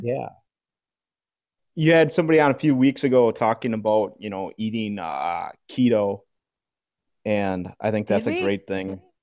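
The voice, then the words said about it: Midwestern American accent. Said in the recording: “You said a boot. You're not Canadian? ... that Midwestern kind of accent.”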